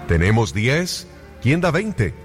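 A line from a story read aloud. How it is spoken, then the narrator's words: Auctioneer shouting. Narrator (Spanish): gritó el subastador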